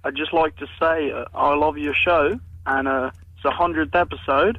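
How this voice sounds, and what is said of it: Very bad put-on accent. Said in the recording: “This is the worst accent ever.”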